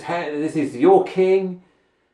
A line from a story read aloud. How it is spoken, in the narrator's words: mocked